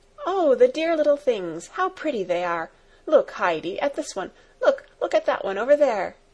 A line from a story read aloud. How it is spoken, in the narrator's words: Clara, pleased with their gambols, kept on exclaiming